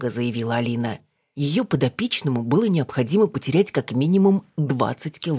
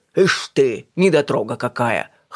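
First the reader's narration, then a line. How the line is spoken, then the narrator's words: Scoffing man. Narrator (Russian): хмыкнул он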